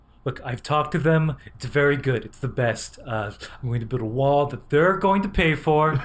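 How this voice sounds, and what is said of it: Imitates another person's voice. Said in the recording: “Trump? We've all got a Trump. ... Yours is also not very good, but you have a little Christopher Walken in there”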